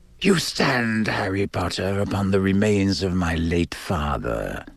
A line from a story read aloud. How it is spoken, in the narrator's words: he hissed softly